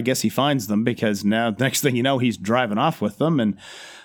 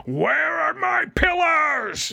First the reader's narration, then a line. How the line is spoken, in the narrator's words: He just rips through yelling